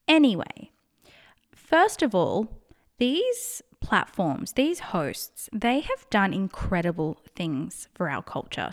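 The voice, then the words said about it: Australian accent. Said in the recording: “So I'm in Australia, if you can't tell by my accent.”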